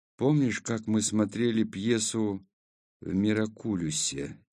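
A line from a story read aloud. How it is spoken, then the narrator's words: Quiet question. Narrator (Russian): тихо спросил я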